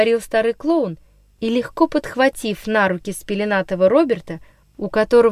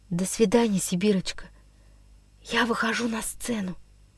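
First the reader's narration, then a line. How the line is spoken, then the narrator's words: Whisper. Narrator (Russian): прошептал Андрюша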